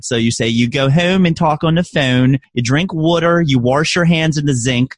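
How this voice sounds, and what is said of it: Put-on Baltimore accent. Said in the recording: “I can turn on my Baltimore accent if I want to”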